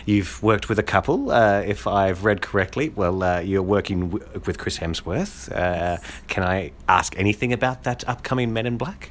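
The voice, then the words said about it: Australian accent. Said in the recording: “You probably noticed my Aussie accent, ... I'm an Aussie true and true”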